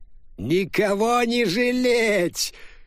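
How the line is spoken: Shout. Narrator (Russian): крикнул Руфай

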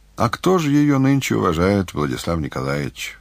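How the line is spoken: Sighing. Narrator (Russian): вздохнул Лисицын

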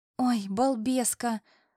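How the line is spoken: Sighing. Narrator (Russian): вздохнула Натуся

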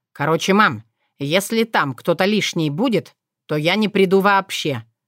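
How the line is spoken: Stern. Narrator (Russian): строго заявил Иван

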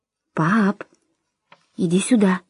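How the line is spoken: Quiet repetition. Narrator (Russian): негромко повторил Том

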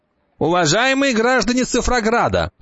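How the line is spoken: Shouting. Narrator (Russian): кричала одна девятка

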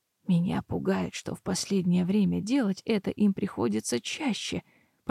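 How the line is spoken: Muttered. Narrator (Russian): пробормотала женщина

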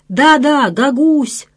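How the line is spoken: Enthusiastic group shout. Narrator (Russian): закричали они с энтузиазмом

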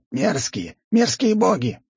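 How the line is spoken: Screaming, wailing curses. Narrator (Russian): черные сгустки кричали, вопили и проклинали

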